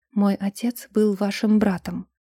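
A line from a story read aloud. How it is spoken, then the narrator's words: Quiet but firm. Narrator (Russian): произнесла тихо, но твердо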